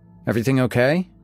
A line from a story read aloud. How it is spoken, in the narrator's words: I asked him